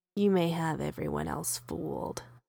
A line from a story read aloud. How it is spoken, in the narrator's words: Chris says, voice dropping down to the closest register to a growl that Peter has heard from a human in a long while